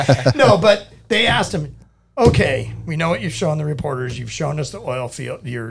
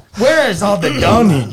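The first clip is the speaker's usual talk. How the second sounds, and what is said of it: Put-on Russian accent, deliberately bad. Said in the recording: “My accent's going to be horrible here. ... Oh, you're going to go Russian? ... Oh, I'm going to go Russian.”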